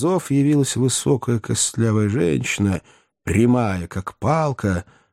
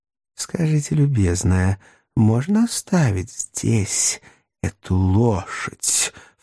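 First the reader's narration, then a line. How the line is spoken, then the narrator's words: Ingratiating question. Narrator (Russian): вкрадчиво спросил мистер Тапман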